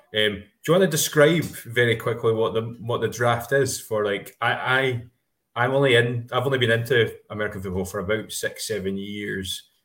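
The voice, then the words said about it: Scottish accent. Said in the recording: “we're Scots, both of us, in case you don't understand from that accent.”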